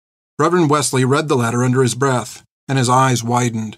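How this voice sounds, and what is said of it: Usual voice. Nothing is said of it.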